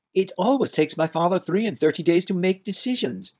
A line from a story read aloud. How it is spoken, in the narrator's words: cried